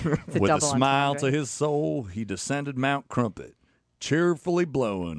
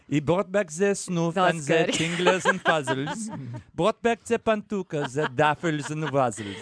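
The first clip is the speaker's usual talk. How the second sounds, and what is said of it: Exaggerated fake French accent. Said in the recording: “the French guy again? ... Terrible accent.”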